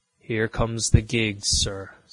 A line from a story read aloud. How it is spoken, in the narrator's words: said I